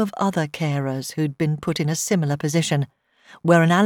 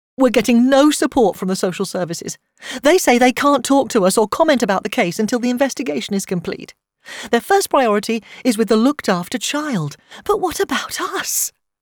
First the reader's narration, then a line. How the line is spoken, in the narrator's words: Tash said, her voice rising